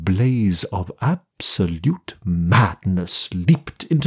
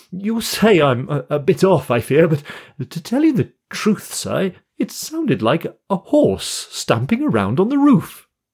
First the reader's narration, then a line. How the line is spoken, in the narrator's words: the man laughed apologetically